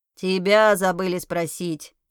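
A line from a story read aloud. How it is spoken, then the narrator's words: Stern pet grunt. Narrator (Russian): Строго хрюкнул мой питомец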